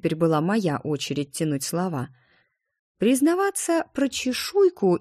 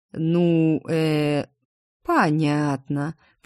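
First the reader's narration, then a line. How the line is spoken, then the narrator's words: Drawn-out drawl. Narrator (Russian): протянула Адриен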